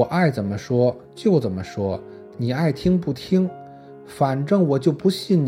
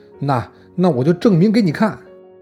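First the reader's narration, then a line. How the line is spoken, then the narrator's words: Loud shout. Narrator (Chinese): 老王大声的喊道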